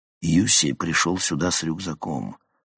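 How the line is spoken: Quiet speech. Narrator (Russian): тихо сказал

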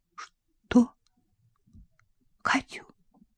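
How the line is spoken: Startled whispered question. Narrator (Russian): вздрогнул и переспросил шепотом

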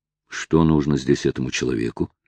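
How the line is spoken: Muttered to himself. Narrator (Russian): пробормотал про себя Оливер

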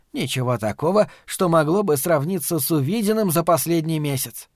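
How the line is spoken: Sighing old woman. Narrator (Russian): вздохнула матушка Абагейл

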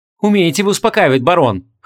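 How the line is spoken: Wry female snort. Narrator (Russian): хмыкнула Ванесса

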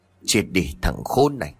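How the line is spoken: Snarling. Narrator (Vietnamese): gằn giọng

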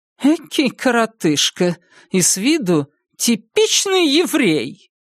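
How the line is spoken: Shrill, squealing, barely controlled. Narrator (Russian): Инид не слишком владела собой, в голосе слышались пронзительные, визгливые нотки

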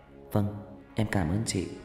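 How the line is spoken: Shy girl, soft-spoken. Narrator (Vietnamese): Cô bé Thu Trà đỏ mặt, nhỏ nhẹ

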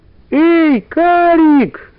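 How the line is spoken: Shouting. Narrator (Russian): закричала Валя

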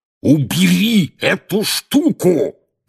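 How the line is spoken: Roaring right in ear. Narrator (Russian): проревел дядя Вернон прямо в ухо Гарри

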